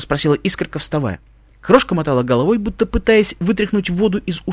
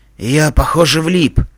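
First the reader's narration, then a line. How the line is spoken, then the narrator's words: Hoarse. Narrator (Russian): хрипло сказал Пегас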